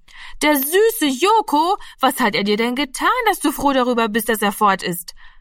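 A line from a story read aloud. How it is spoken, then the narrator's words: Called out. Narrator (German): rief Martina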